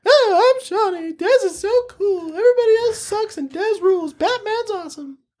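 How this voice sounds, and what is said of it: Imitates another person's voice. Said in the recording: “your impression of me”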